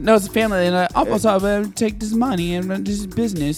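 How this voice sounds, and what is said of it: Poor put-on British accent. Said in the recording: “somebody has a British accent ... You can't get the accent down.”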